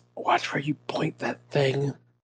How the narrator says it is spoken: She whispers

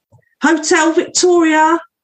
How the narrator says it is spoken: conductress yelled

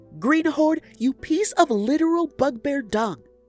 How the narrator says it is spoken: Ola yelled

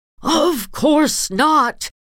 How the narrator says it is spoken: she shouted, hands flailing and face white with rage

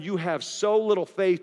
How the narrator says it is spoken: Jesus said

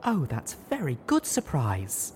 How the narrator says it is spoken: cooed

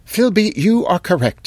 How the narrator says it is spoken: gasped

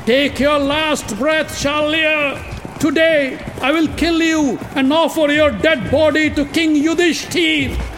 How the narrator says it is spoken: Uttar shouted in joy

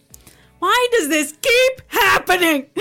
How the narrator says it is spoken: I shout into the air

